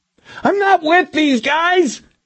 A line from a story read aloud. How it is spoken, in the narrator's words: Milosevic screamed